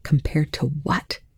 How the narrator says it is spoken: Telford responded just as quietly

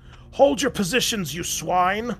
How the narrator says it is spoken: roared Block

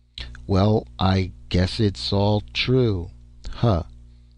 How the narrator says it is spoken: Ned Vince muttered in a flat tone

